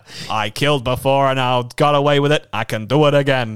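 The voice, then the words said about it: Put-on American accent. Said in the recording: “Shall I do it in an American accent?”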